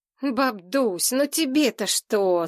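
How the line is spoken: Whining moan. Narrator (Russian): застонал Шурка

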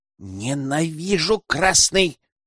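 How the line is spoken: Hissing. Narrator (Russian): прошипела

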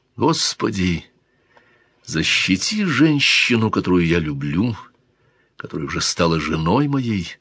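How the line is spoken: Quiet. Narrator (Russian): негромко сказал Дон Гонсало де Гусман

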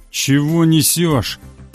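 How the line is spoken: Nervous hoarse bass. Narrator (Russian): нервно прохрипел охотник басом

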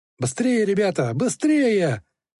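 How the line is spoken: Shouting. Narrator (Russian): кричал он

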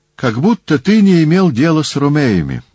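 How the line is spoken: Exclamation. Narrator (Russian): воскликнул Филарх

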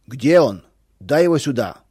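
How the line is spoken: Angry shouting. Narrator (Russian): кричал Федор

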